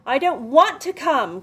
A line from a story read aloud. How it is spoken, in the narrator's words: Claire cried